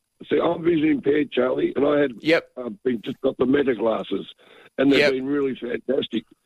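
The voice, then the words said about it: Voice sounds off, possibly hoarse. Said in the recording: “Excuse my voice.”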